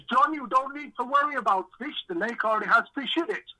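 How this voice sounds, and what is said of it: Put-on Dutch accent. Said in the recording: “I'll try and do a Dutch impression.”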